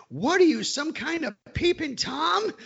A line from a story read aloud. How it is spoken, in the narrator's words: screamed at the top of his lungs